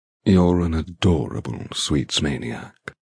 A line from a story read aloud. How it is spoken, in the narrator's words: murmurs